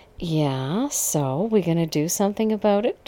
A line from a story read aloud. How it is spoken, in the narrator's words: asked in a snotty tone